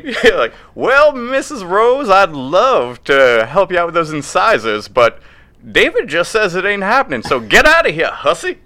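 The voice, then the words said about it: Put-on Southern US accent. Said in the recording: “Why are you doing it with a southern accent?”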